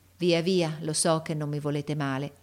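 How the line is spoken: Sighing. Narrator (Italian): mise un sospiro

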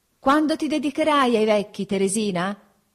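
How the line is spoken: Shout across distance. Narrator (Italian): gridai per essere inteso da lei, che m'era già lontana

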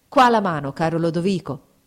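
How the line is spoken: Exclaiming. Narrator (Italian): esclamò Fabrizio

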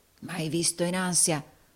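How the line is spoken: Murmured. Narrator (Italian): mormorò Rodolfo

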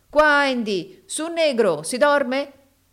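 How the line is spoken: Shouting. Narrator (Italian): gridava Samuele

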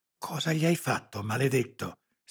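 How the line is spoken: Anguished hiss. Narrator (Italian): sibilò Lara, angosciata

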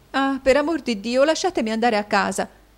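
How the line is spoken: Exclaiming. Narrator (Italian): esclamò Caterina

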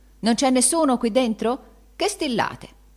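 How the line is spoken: Exclaimed. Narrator (Italian): esclamando

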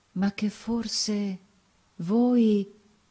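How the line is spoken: Murmuring. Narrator (Italian): mormorando

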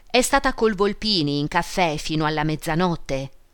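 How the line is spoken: Old woman, breathless, nasal. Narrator (Italian): rispose la vecchia d'un fiato, voce nasale

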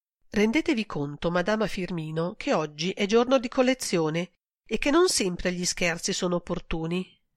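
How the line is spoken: Sighing. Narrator (Italian): sospirò Marta

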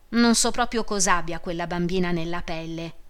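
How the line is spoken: Plain. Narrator (Italian): disse Teresa

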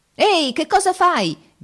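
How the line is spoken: Shouted. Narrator (Italian): gridate

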